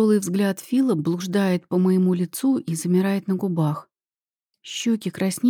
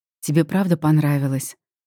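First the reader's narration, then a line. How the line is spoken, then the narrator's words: Hoarse, hopeful young man. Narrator (Russian): спрашивает парень хрипло и с какой-то надеждой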